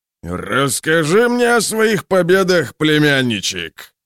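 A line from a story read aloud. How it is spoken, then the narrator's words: Roaring. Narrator (Russian): проревел он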